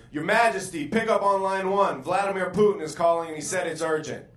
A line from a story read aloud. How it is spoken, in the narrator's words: a royal advisor screams from outside the hallway